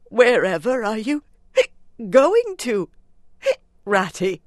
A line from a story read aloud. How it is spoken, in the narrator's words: cried the tearful Mole, in alarm